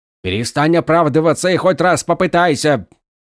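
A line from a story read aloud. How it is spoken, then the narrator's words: Barking roar. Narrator (Russian): рявкнул Долинар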